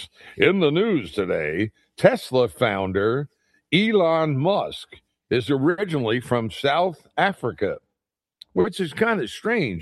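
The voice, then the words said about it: Mock newscaster voice. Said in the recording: “I do that news voice.”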